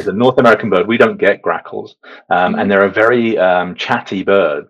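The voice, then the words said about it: British accent. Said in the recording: “You probably hear from my accent, I'm from the UK.”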